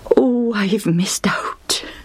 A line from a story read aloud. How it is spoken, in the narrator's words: groaned under his breath